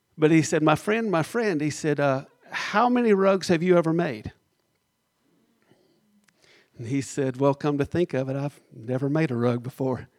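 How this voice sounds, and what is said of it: Southern drawl. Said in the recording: “I'll continue in my southern drawl”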